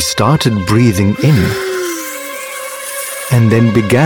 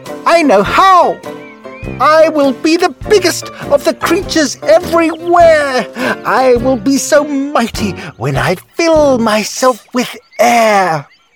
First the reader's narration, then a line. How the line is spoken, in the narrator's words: shouted